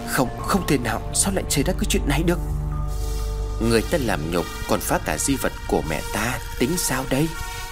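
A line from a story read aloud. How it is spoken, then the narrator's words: Eerie laugh with hissing. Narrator (Vietnamese): Phi cười lên kèm theo những tiếng rít âm u vọng về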